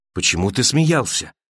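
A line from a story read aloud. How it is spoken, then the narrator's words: Woman's quiet question. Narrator (Russian): тихо спросила женщина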